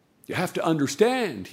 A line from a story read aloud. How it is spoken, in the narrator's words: he says, very quietly